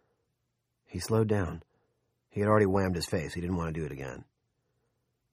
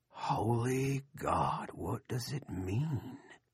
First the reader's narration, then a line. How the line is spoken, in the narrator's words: Sea Dogs whispered